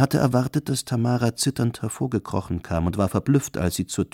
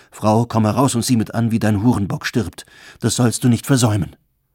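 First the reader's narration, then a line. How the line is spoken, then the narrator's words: Calling out. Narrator (German): Er rief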